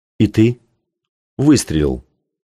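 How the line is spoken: Said dryly. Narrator (Russian): сухо сказал Кей

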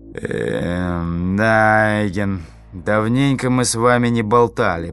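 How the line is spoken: Grumbling with a feigned sigh. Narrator (Russian): проворчал Самилан сделанным вздохом

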